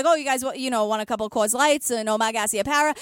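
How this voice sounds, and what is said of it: Put-on Boston accent. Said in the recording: “that's sort of how I perfected the accent. Not like I'm saying it's perfect. It's flawed in many ways. ... No, it's really good. The thing about the Boston accent is that it's really nuanced”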